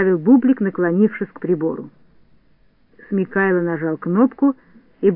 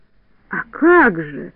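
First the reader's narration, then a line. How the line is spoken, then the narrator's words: Exclamation. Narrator (Russian): воскликнул Смикайло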